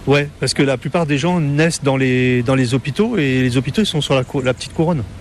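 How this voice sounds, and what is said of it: Parisian French accent. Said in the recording (French): “Vous n'avez pas l'accent créole ... j'ai gardé mon accent parisien quand même”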